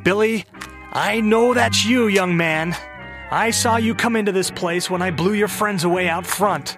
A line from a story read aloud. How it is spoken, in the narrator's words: Mildred craned her neck as far as she could so she could shout over her shoulder